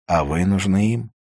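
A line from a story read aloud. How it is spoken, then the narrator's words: Plain. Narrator (Russian): сказала Кая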